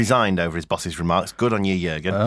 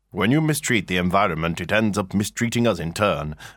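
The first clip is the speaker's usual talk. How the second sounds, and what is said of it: Put-on different voice for quotes. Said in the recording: “I'm doing the bits in inverted commas in a different voice”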